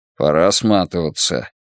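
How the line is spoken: Grumbled mutter. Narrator (Russian): буркнул Рокки

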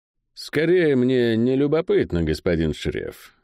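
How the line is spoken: Calm, restrained. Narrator (Russian): спокойно ответил тот, сдержав себя

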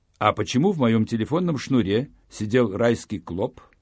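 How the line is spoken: Plain question. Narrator (Russian): спросил я

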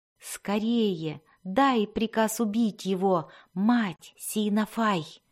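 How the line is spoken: Whispering sorcerer. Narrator (Russian): прошептал колдун

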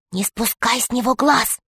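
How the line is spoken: Whisper. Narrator (Russian): Алиса сказала шепотом

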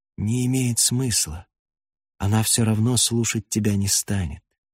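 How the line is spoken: Hesitant, brief. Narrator (Russian): ответил неуверенно, коротко

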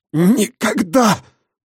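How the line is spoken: Wheezing. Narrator (Russian): просипел он

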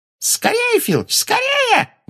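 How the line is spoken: Shrill squeal. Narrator (Russian): взвизгнула Амбридж

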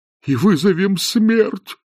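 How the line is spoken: Groaned. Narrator (Russian): простонал декан

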